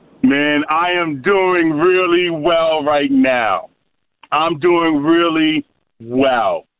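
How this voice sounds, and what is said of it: New York accent. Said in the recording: “if you can tell from my accent, I am from New York”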